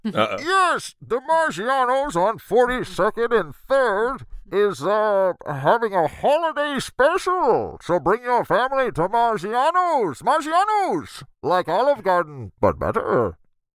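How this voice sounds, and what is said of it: Bane impression. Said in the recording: “Your Bane impression is very good”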